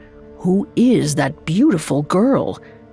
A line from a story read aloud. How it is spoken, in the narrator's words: them whisper